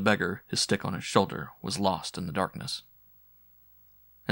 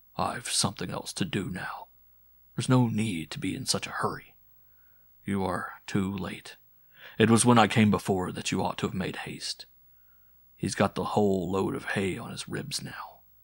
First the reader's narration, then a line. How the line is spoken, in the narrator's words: as he murmured